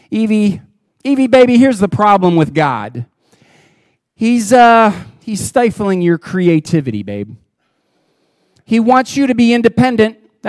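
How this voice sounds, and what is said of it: Put-on Jersey accent. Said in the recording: “Satan has a little bit of a Jersey accent.”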